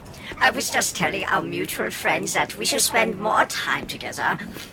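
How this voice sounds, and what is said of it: German accent character voice. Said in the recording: “He had goblin-like features and sported large teeth and a German accent.”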